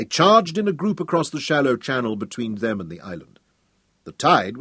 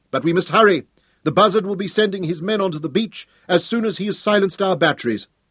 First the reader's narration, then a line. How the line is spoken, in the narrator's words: Hal shouted